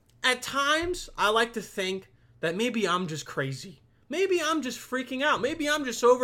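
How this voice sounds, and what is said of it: Usual voice. Nothing is said of it.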